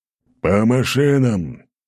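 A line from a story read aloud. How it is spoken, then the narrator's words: Growled. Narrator (Russian): рыкнул Аршавин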